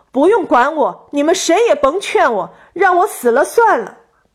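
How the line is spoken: Sobbing woman shouting angrily. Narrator (Chinese): 年轻女子光顾着哭泣，反应激烈起来，大声朝商人吼道

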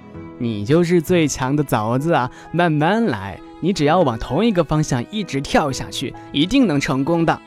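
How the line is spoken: Smiling. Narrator (Chinese): 小蜘蛛笑了笑

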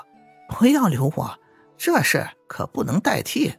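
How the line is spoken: Laughing. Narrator (Chinese): 青梅笑着说

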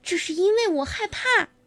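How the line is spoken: Shouting. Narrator (Chinese): 他叫道

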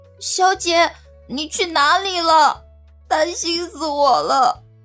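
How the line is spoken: Crying. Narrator (Chinese): 小环就立刻扑了上来，哭着说道

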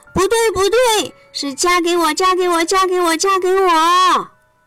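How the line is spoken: Loud chorus of mice. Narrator (Chinese): 所有的小老鼠们都大声地说

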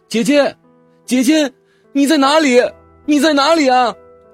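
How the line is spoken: Calling out repeatedly. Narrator (Chinese): 不停的喊叫

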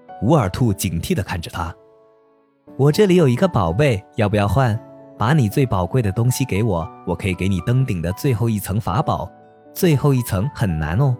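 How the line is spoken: Child, innocent, laughing. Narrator (Chinese): 一个精灵模样的小孩天真的笑着说

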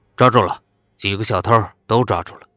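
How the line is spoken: Loud speech over radio. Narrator (Chinese): 一个警察拿着步话机大声地说道

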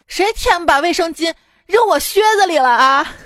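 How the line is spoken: Middle-aged woman shouting. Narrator (Chinese): 一个大妈就喊啊

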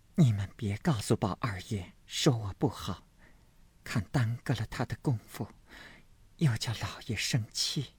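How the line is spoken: Hesitant sigh. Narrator (Chinese): 黛玉迟了半日，叹了一声，才说道

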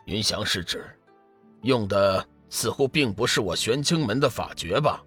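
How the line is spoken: Calm, detached. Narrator (Chinese): 天真上人淡淡说道

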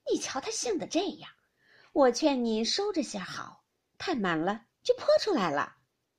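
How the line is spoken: Laughing. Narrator (Chinese): 尤氏笑道

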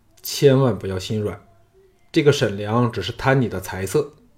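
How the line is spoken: Low, deep voice. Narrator (Chinese): 那人沉声说

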